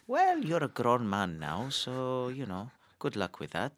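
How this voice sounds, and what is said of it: Imitates father's accent. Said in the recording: “I'm not sure I'm doing his accent... That sounds good.”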